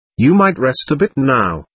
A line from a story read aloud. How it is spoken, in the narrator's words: Ivan snapped sullenly